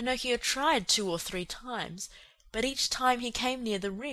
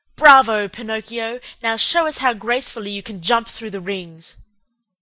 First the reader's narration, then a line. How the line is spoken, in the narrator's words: the manager, who cried out